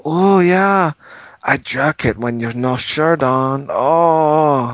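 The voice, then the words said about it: Slurred put-on Spanish accent. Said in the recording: “in a slurred Spanish accent”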